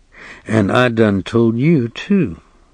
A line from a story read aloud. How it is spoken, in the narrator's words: the sheriff said, in his bleak, quiet voice